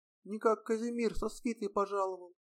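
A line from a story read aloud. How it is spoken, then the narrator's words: Quiet ornate swearing. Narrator (Russian): Бурцев негромко и витиевато выргался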